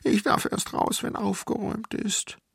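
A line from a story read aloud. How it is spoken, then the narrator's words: Sobbing. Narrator (German): schluchzte ich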